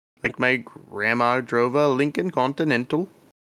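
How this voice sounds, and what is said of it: Put-on Minnesota Scandinavian accent. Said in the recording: “Minnesota ... Scandinavian ancestors. So they tend to talk like this, and they talk in a kind of a rhythm.”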